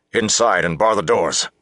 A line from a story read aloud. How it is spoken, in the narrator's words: Lance snapped